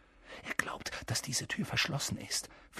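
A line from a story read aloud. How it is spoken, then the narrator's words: Whispering. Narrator (German): flüsterte Harry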